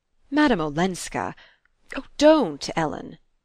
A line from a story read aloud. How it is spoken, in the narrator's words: he cried